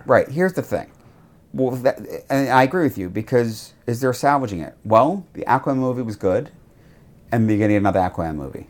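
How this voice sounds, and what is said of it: Speaker's own noticeable accent. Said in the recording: “I love your accent.”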